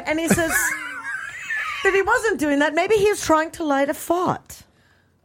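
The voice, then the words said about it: Bad put-on English accent. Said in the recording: “Your English accent is ... Worse than mine. ... Oh, mine is so bad. ... So bad.”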